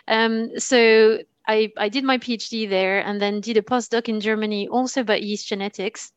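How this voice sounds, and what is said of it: French accent. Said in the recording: “You can probably hear it from my accent. I am French.”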